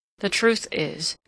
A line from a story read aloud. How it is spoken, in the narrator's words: he observed gloomily